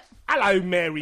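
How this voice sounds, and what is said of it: Bad put-on Cockney accent. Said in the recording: “Dick Van Dyke's fucking accent ... Don't make every third consonant silent ... that's how Cockney speaks”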